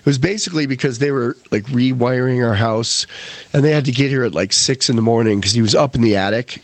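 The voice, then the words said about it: Hoarse, strained voice. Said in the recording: “I'm hoarse. ... that made me hoarse. ... my throat's frying”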